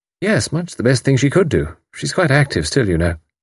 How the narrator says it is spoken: said Deborah kindly

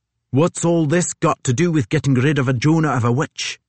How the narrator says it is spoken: Suddenly one of Hickey's compatriots shouts out

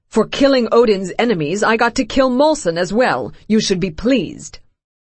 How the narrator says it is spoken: he snaps

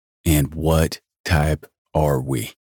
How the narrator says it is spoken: I asked slowly, readying to pounce

